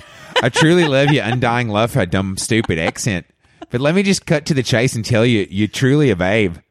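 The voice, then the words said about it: Put-on Australian accent, fairly good. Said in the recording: “you're pretty good, but your Australian version of you is so different from the American version of you”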